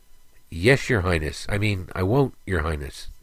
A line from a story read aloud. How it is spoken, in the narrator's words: Alex stammered